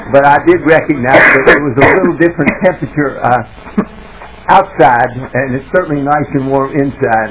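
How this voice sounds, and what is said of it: Speaks with a noticeable regional accent. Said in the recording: “You might tell a little bit from my accent”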